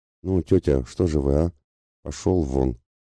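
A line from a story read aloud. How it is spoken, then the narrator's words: Through gritted teeth. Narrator (Russian): сказала она сквозь зубы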